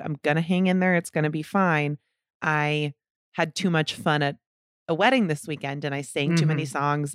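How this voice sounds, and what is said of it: Scratchy, sore-throat voice. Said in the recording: “my voice is a little scratchy this episode ... I just have your run-of-the-mill sore throat”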